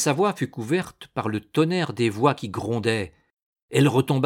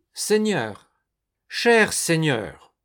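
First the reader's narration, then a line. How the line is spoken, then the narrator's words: Despairing cry. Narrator (French): s'écria Primevère, blanche de désespoir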